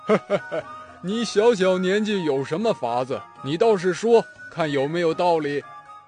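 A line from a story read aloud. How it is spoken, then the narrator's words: Laughing. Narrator (Chinese): 曹操笑着说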